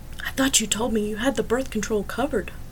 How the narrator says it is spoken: whispered to Elliot

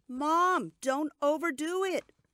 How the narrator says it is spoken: my daughter Liz shouted from the other room

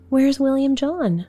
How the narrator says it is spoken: cried Amy

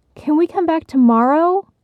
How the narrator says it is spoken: Bridget and Benny begged their mother

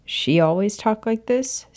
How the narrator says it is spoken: Sirius chuckled

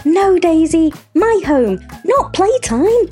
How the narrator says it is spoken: cried

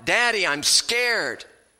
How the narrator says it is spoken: rather terrified, he cried out

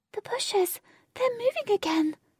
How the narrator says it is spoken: Jane cried

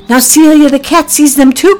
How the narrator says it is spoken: cried Priscilla

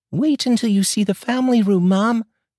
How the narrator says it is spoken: exclaimed David

